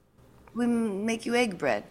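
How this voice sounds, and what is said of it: Bad put-on Japanese accent. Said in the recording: “what like the Japanese would call it ... That was a terrible accent.”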